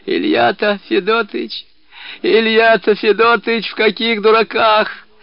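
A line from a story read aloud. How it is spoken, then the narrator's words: Wheezing, hoarse. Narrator (Russian): прохрипел Кишкин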